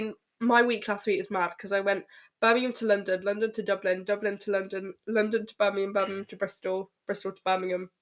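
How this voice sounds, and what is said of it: Congested voice with a cold. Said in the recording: “I've got a cold.”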